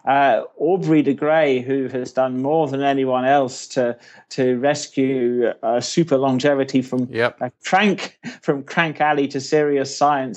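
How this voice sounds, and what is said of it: British accent. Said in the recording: “as you can probably tell from my accent, I'm a Brit myself”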